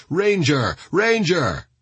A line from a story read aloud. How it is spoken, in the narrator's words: Steele and his men called out